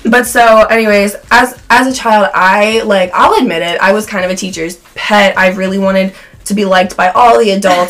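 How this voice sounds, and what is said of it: Hoarse, fading voice. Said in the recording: “I'm losing my voice because I smoke a lot”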